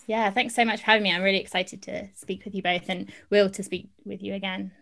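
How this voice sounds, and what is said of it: Speaks with a distinct accent. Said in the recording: “I love the accent ... I can definitely deliver on the accent. That just comes naturally.”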